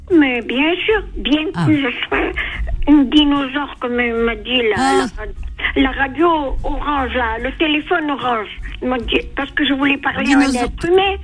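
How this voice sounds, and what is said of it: Pied-noir French accent. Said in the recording (French): “Quel bel accent, j'adore cet accent ... je suis une pied noire”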